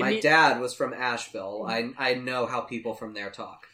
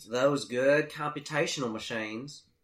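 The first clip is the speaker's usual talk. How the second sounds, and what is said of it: Sinister Southern US accent impression. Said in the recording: “your sinister version of Andy Griffith ... he's got the best southern accent.”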